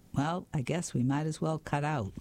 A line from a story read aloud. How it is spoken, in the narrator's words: In his normal voice, he said